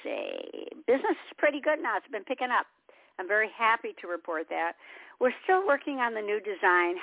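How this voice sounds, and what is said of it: Slightly raspy voice. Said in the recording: “My voice is already a little raspy.”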